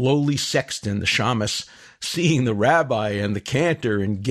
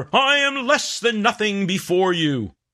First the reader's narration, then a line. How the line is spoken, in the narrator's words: The equally pompous cantor emulates the rabbi, shouting even louder